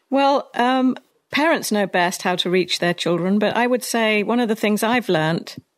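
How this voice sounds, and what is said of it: British accent. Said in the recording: “you have a British accent. So no matter what you say, it sounds better than my accent or any other American”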